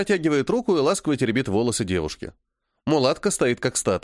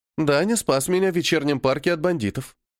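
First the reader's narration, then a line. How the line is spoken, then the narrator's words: Calm statement. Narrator (Russian): спокойно сообщает княжна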